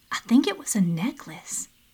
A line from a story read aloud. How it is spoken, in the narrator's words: said quietly